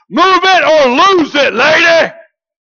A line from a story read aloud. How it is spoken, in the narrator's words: he finally hollered